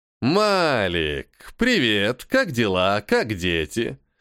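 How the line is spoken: Cheerful and loud. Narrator (Russian): Весело и громко произнес Локи

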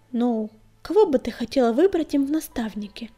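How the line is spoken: Uncertain question. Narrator (Russian): неуверенно спросил он

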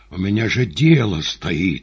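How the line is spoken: Growling. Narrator (Russian): рычал Римский

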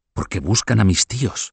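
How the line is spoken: Whispered. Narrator (Spanish): susurró Beatriz a la condesa de Poitiers

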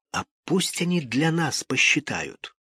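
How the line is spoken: Whispering. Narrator (Russian): Сережа зашептал

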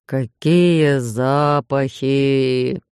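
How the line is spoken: Moaning. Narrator (Russian): простонал шеф

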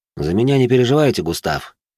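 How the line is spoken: Calm repetition. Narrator (Russian): спокойно повторил я

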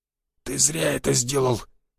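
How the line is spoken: Wheezing. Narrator (Russian): просипел Буян

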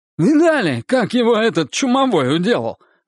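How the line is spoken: Exclaimed. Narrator (Russian): воскликнул Славик

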